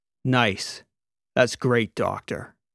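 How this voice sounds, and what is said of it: Cold flat deadpan delivery. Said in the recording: “in a cold deadpan”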